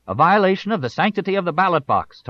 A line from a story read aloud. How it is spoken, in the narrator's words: Tarleton shouted